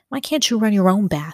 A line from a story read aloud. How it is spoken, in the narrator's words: snapped Bruno